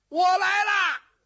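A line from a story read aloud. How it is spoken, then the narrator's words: Shout upward. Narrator (Chinese): 余文丞相冲楼上喊了一声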